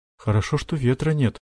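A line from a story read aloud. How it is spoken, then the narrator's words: Mumbling mother. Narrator (Russian): пробормотала мама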